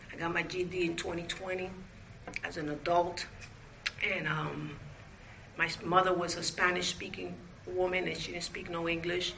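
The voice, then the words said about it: Speaker's own noticeable accent. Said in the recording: “My siblings, they don't have this accent that I have”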